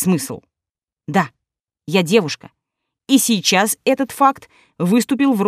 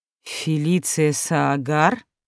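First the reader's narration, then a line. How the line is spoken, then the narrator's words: Breathless. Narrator (Russian): выдохнул он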